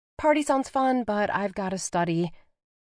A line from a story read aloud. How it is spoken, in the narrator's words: she said quickly